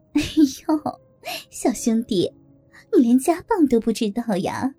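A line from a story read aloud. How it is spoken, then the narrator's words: Flirtatious laughing. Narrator (Chinese): 梅姐浪笑着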